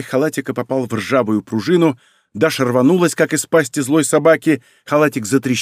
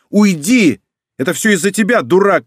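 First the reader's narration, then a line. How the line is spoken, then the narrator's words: Shouting. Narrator (Russian): кричала она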